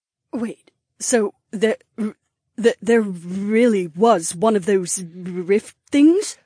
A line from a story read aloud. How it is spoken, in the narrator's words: stammered as her mouth fell open